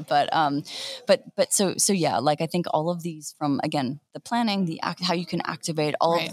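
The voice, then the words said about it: Strained, hoarse, fading voice. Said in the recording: “I'm barely able to talk. And I'm going to be losing my voice by the end of this day.”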